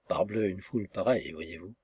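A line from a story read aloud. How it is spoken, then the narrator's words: Indulgent, philosophical murmur. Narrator (French): murmurait-il avec une indulgence philosophique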